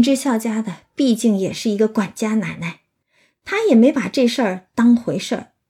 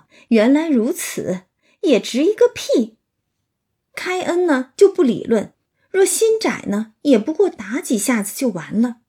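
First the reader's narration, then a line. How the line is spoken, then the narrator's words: Laughing. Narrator (Chinese): 林之孝家的听了，笑道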